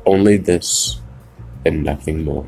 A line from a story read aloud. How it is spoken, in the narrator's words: I muttered